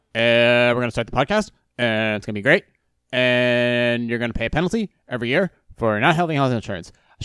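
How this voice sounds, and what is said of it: Imitates another person's voice, abrupt pauses. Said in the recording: “my voice is stopping so abruptly. Sound like Obama.”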